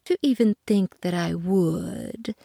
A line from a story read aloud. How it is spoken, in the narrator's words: purred the cat